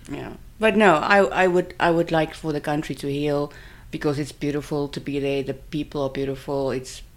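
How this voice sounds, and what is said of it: Speaks with a noticeable accent. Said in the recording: “my stupid accent”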